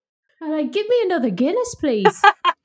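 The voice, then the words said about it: Put-on Irish accent. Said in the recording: “They would never be on to you for your accent.”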